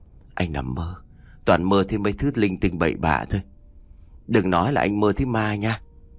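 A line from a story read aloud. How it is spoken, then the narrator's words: Sighing. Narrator (Vietnamese): anh thở dài và nói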